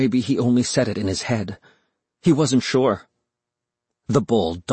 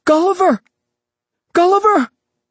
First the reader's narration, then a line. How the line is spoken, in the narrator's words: cried